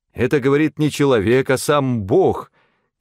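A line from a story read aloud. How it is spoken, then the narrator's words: Crowd shouting. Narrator (Russian): кричали они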